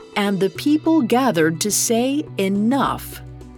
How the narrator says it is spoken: exclaiming to the heavens

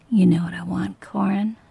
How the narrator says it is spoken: whispered

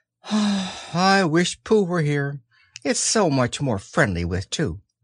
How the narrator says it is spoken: he gave a very long sigh and said

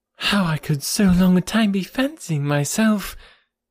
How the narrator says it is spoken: cried Harriet warmly

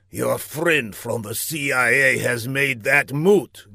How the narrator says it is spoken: grumbled Laszlo

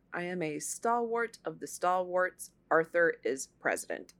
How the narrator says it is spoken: Guiteau calmly told them

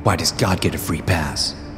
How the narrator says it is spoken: the boy muttered in frustration

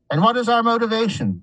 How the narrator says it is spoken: Someone shouted

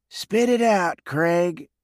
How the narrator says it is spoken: said wearily

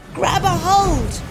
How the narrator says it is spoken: Preston shouted

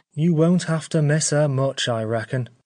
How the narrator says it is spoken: said Stephen grimly

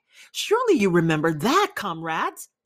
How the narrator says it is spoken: exclaimed Squealer

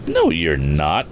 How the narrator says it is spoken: exclaimed Tom

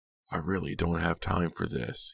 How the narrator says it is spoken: muttered

